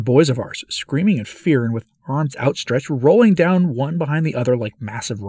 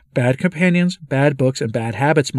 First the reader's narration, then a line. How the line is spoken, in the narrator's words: my guide exclaimed